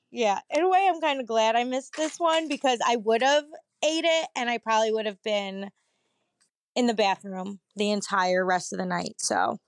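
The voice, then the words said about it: Hoarse, partly lost voice. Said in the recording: “sorry for my voice. For some reason, I lost my voice.”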